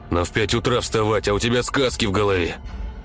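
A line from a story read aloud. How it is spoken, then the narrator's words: Sleepy grumbling father. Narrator (Russian): сонливо бурчал отец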